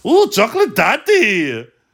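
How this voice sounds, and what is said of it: Good cartoon pig character voice. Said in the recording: “You've got a great Gunter impression.”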